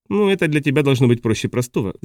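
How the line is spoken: Laughing. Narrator (Russian): засмеялась Джорджина

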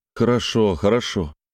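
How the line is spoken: Glum promise. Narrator (Russian): уныло пообещал ей Олег

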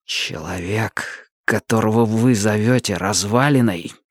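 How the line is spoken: Ominous near-whisper. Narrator (Russian): заговорил Мэтью едва ли громче зловещего шепота

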